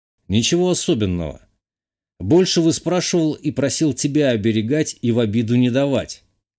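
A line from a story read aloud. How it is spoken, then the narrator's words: Plain. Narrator (Russian): ответил я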